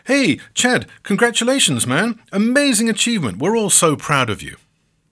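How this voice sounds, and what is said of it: Put-on American accent. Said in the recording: “I may, I admit, be adopting an American accent at this point.”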